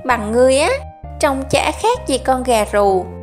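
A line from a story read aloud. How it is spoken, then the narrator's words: Loud guffawing. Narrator (Vietnamese): Khâu Bá Hổ bật cười hô hố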